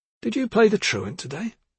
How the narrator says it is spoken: His tone was friendly, and he was smiling

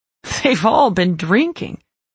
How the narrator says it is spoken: Nash said with a laugh

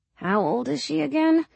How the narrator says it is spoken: Molly mumbles

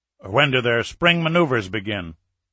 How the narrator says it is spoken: Sinclair asked

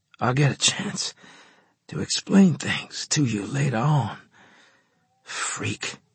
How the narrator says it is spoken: I rasped

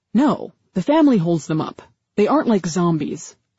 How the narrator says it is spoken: Paul replied

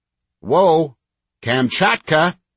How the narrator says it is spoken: Anna called out

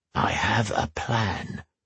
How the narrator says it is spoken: Axa whispered in his ear

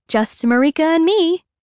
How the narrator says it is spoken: Constance chirps

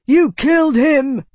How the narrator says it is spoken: Tavi shouted, his voice hoarse

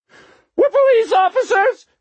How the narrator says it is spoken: Waxy yelled, his voice suddenly shrill

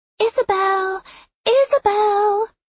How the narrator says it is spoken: Lark sang out sweetly

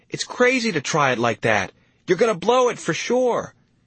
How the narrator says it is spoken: I shouted after him

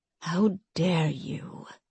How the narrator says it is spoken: Euphraxia whispered

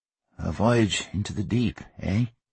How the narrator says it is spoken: Hugh cleared his throat and murmured

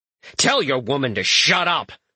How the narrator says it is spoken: Fred snaps

